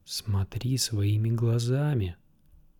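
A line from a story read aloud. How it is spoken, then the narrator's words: Whispered. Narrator (Russian): шепнул Арье голос Сирио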